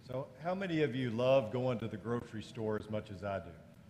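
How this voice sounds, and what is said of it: Sarcastic tone. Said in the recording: “That's being sarcastic.”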